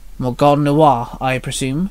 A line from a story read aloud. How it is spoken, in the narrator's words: Minnie grunted